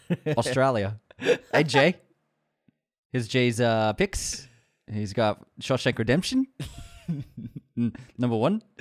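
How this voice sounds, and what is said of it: Put-on New Zealand accent. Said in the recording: “I said it with the Australian accent ... You're doing Kiwi now. I like it. ... your New Zealand's better than Australian. You're just doing Flight of the Conchords.”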